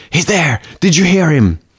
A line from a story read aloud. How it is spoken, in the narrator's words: Jim Irving excitedly pointed to the opposite side of the room, whispering